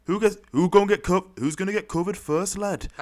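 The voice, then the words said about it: Bad put-on northern English accent. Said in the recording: “that's my worst northern accent ever”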